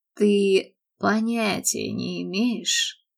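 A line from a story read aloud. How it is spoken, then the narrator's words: Expressive sigh. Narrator (Russian): выразительно вздохнул он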